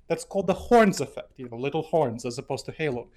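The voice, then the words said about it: Foreign, non-American accent. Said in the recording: “you can probably obviously hear that I have an accent, not from around here in terms of the United States”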